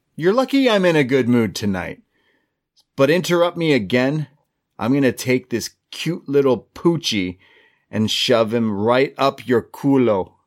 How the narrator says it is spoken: Gonzalez kind of laughs at her and says

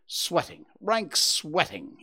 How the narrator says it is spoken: he cried like a man who is in a boiling passion

